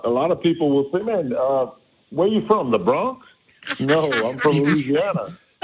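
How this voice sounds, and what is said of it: Heavy Cajun accent. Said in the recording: “our accent, our Cajun accent is a lot ... But we have a similar accent”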